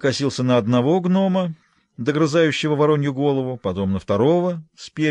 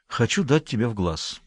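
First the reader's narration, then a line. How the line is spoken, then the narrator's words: Sighing explanation. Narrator (Russian): вздохнув, пояснил я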